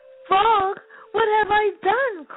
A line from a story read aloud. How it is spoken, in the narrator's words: cried Toad